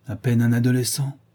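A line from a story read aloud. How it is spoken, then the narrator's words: Sneering laugh. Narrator (French): ricana-t-elle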